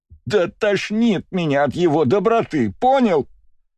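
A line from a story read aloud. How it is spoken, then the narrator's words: Nearly shouting. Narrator (Russian): почти прокричала Марина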